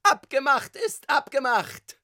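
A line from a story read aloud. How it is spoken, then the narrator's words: Shouting tenor voice. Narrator (German): schrie eine wohlbekannte Stimme, Tonlage Tenor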